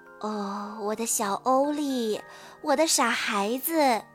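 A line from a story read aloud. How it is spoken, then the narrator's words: Soft, tender. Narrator (Chinese): 妈妈轻声地说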